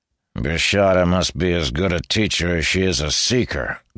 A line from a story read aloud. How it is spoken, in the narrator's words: Goran said with a growl